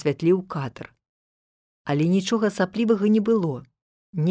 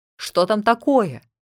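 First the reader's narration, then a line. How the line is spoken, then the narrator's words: Anxious shout. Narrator (Belarusian): Той трывожна крыкнуў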